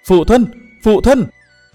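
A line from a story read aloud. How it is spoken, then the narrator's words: Loud calling. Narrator (Vietnamese): chàng đã lớn tiếng gọi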